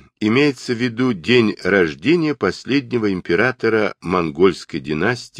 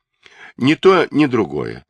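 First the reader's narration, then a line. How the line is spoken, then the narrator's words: Calm reply. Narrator (Russian): спокойно ответил Суньюкун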